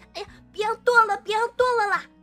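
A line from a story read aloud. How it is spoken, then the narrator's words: Frightened girl screaming. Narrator (Chinese): 山顶上的小姑娘也吓得尖叫起来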